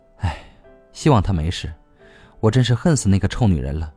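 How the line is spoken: Heavy sigh. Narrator (Chinese): 郑兵说到这儿，重重的叹息道

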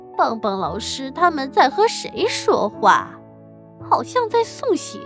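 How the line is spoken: Puzzled old woman mumbling. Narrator (Chinese): 悠悠球太婆正奇怪的看着我们，嘴里嘟囔着

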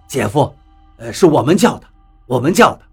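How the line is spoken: Through gritted teeth. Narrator (Chinese): 我忍住了心中的恶心，咬咬牙说道

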